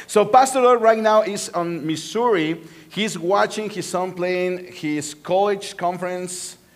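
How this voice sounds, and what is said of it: Sexy Spanish-style accented English. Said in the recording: “I have a sexy accent, right? Like Antonio Bandera, Bandera's accent.”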